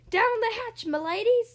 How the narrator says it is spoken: yelled

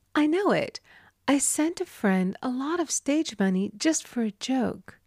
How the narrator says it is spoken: She thought a few moments and exclaimed

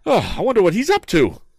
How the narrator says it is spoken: cried Tom excitedly

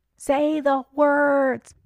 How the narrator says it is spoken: beseeched Pitts tearfully, his voice faint as an echo

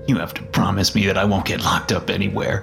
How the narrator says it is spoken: the young man muttered gruffly

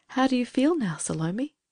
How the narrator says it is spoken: asked Judith gently

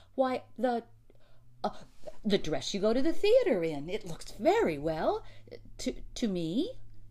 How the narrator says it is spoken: He stammered

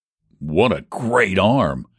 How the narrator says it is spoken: exclaimed deep in my throat

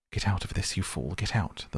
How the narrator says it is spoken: mutter

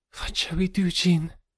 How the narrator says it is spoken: she whispered

